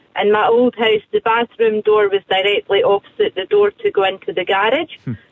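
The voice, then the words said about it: Scottish accent. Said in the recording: “You said it so beautifully with that accent. ... you're definitely Scottish, right? ... I'm definitely Scottish. ... it's a lovely sound”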